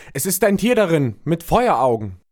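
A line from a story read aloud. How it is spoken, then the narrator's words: Repeated terrified crying out. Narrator (German): entsetzt, der, der die Flasche geöffnet hatte, rief in einem fort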